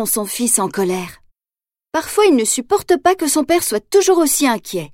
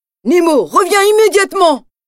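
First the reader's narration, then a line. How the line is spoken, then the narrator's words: Shouted. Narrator (French): crie Marin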